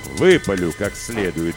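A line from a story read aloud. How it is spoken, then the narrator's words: Gruff mutter. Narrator (Russian): буркнул отец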